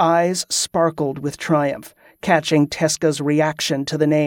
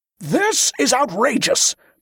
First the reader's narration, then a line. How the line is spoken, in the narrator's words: Brother Hollum roared